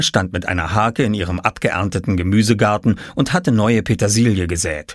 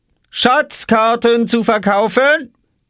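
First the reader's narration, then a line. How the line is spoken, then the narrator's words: Calling out. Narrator (German): rief Oskar hinter seiner Obstkiste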